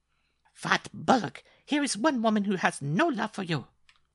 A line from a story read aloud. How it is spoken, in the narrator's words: cried Mademoiselle Lupa